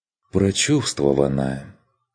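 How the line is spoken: Mock-sad sigh. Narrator (Russian): кивнул Курт, нарочито печально вздохнув

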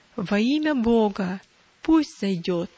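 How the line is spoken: Clear voice. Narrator (Russian): Внятным голосом отвечали

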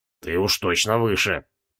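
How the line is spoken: Muttered. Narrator (Russian): пробормотал Зачихан

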